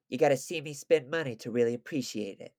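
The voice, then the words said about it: Imitates another person's accent. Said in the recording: “in Nicky Finn's accent”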